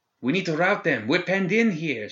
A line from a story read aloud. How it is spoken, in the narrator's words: called out